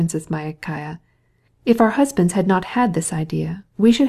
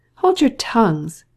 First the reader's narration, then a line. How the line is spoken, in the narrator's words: cried the Princess Myakaya